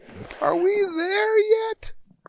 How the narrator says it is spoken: their dad who kept on yelling

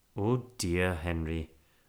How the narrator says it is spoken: murmured Mrs

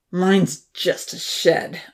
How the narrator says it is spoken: Odin growled, devouring his bread

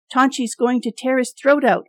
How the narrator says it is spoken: Andre yelled

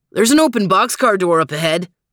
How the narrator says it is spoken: barked Max

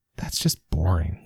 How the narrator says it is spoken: she mumbled

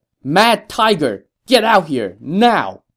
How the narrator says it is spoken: stood in front of the lines and shouted

